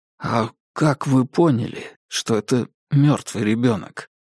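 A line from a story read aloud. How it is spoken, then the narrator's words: Whispered question. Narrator (Russian): шепотом спросил Дейл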